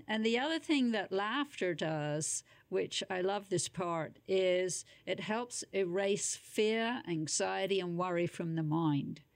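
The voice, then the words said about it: British London accent. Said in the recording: “the accent, by the way, folks, is British-born, London, in the UK”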